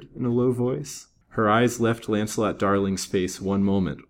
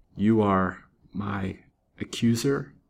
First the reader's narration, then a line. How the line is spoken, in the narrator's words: she faltered